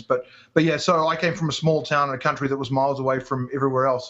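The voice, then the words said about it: New Zealand accent, mixed with English. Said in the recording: “I'm from New Zealand, but for those who's tuning for the first time, that's the accent you can hear. Although I was born in England, so it's kind of a mishmash of a whole bunch of different accents.”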